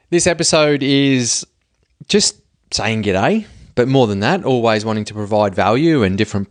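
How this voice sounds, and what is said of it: Strong Australian accent. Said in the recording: “that very Australian accent”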